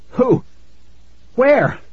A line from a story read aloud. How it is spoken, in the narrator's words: I choked out